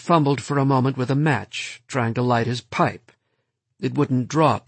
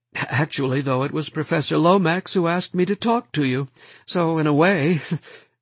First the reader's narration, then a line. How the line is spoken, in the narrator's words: laughed nervously